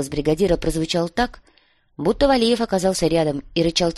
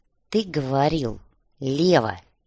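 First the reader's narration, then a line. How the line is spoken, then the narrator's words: Quiet but very firm. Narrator (Russian): Тихо, но очень твердо произнес бульдозерист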